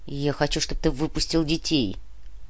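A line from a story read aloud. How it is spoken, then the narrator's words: Grumbled mutter. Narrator (Russian): буркнул Клим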